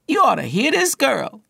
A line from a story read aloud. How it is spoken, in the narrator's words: exclaimed to his boss